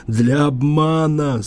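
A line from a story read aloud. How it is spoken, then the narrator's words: Hollow muffled voice. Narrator (Russian): сказал Ивашин глухо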